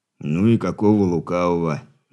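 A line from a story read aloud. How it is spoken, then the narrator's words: Grumbling. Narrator (Russian): пробурчал Хор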